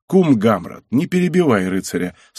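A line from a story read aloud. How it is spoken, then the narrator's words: Plain, merchant. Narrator (Russian): сказал другой купец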